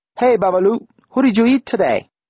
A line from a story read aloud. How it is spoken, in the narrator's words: they barked to a chorus of laughter